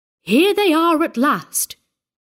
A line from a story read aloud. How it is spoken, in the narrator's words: cried